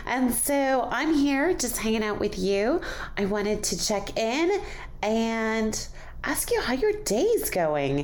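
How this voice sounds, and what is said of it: Slightly off, cold-affected voice. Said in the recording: “my voice is a little off. My voice! ... I'm getting over a cold.”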